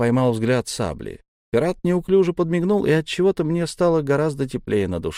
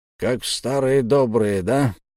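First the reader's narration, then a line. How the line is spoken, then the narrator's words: Hoarse wheeze. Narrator (Russian): прохрипел Одноглазый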